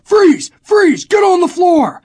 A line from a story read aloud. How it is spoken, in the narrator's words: They were all screaming